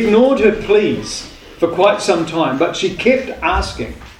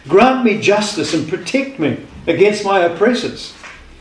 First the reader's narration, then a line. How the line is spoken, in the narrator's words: a poor widow kept pleading with the judge